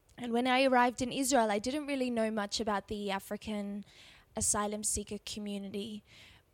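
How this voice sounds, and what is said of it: Australian accent. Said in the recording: “you might be able to tell from my accent that I'm actually Australian”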